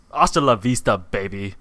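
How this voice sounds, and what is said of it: Buff Austrian accent impression. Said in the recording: “a buff Austrian accent ... Arnold Schwarzenegger”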